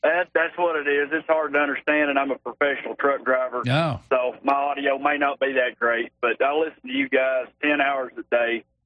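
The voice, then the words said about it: Thick Arkansas accent. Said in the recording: “that thick Arkansas accent”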